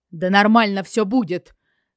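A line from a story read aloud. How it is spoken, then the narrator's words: Unexpected barking snap. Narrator (Russian): Почему-то рявкнул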